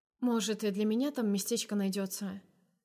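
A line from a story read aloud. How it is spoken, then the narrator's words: Hoarse, unused voice. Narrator (Russian): Спрашиваю охрипшим от долгого молчания голосом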